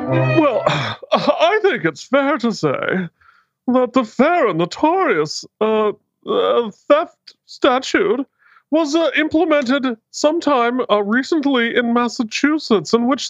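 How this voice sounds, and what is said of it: Pompous, self-important speaking voice. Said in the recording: “talk like an asshole ... is pompous.”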